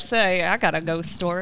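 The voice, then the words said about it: Exaggerated Southern drawl, cartoon-like. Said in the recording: “he sounded like Foghorn Leghorn. ... he had this amazing Southern accent.”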